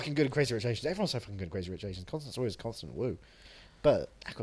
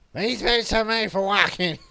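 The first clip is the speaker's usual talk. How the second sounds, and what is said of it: Scratchy voice imitating another person. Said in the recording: “It's a pretty good impression... she's got that kind of scratchy voice, that fun scratchy voice.”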